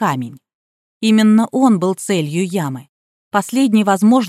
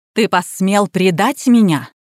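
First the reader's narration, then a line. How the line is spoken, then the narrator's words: Hiss. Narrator (Russian): прошипела Калли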